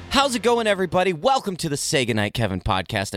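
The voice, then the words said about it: Radio announcer voice. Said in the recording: “doing my radio voice”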